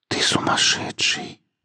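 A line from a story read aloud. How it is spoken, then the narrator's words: Whispering. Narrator (Russian): прошептала она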